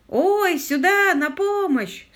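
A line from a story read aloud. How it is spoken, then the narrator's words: Shouting. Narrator (Russian): снова закричал лорд Питер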